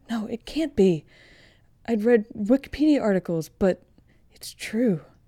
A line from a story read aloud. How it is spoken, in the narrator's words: Quinn gasps with a lump in her throat